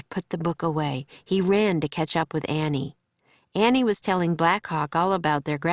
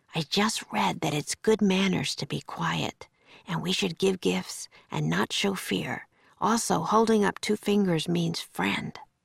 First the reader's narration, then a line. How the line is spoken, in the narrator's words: Jack whispered